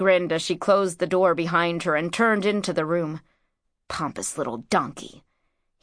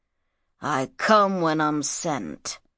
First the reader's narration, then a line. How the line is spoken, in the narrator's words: grunted Shadzar